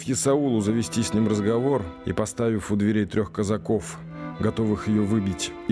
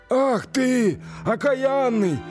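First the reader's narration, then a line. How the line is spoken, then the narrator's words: Shouting. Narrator (Russian): кричал Исаул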